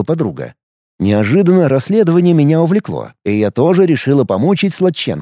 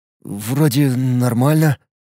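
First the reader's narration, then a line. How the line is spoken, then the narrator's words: Mumbling. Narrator (Russian): промямлил он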